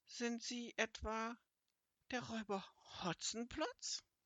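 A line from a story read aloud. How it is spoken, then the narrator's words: Frightened question. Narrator (German): wurde sie blass und mit ängstlicher Stimme fragte sie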